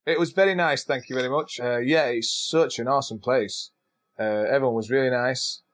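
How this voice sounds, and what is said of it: Scottish accent. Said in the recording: “I kept getting free coffee because of my accent ... It's the accent ... Where are you from? Scotland.”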